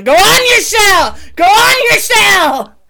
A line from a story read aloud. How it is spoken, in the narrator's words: Kaylee just yelling